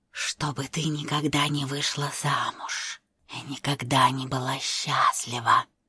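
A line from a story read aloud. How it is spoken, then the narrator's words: Ominous whisper. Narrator (Russian): зловеще шептала мать Вали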